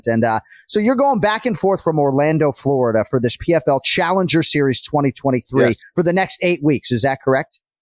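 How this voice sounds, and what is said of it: Put-on Boston accent. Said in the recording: “I'm doing the whole show basically in a Boston accent today ... That episode will not be in a Boston accent. That'll be more like the broadcasting voice that you're used to. But today, we're going Boston accent.”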